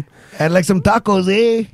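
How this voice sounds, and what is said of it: Put-on Canadian accent. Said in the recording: “Now say it as a Canadian.”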